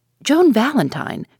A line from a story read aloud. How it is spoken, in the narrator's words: cried Judson